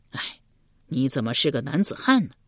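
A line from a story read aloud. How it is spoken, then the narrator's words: Puzzled. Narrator (Chinese): 树雕满面不解道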